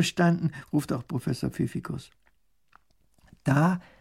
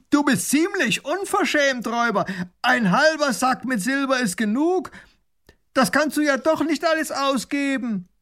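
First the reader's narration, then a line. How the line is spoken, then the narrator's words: Calling through cupped hands. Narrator (German): Baron von Raffigny legt die Hände als Trichter an den Mund und ruft hinüber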